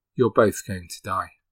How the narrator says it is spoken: He told them very calmly

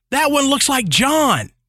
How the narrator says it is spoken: Suddenly, one of the girls yelled

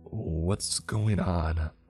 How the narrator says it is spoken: I stammered, trying to put some bass in my voice, but still nothing

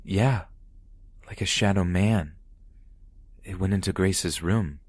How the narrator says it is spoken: he stated calmly

